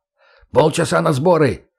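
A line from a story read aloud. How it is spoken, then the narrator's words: Barked order. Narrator (Russian): рявкнул Леха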